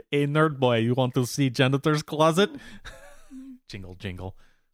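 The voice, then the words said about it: Put-on Russian accent. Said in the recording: “Was that a good Russian accent?”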